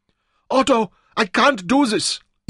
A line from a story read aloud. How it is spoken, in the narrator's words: Eva cried